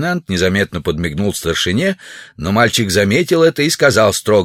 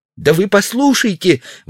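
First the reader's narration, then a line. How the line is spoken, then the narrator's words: Boy's tearful exclamation. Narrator (Russian): воскликнул мальчик, и глаза его увлажнились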